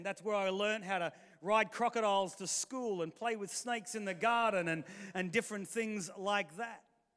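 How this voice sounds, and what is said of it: Australian-influenced English accent. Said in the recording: “we got shipped off to Australia for a whole heap of years ... hence the accent.”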